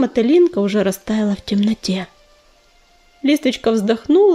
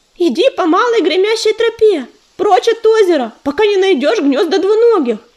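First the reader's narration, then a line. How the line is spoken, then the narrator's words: Shouting after someone. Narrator (Russian): закричала ей вслед Листвичка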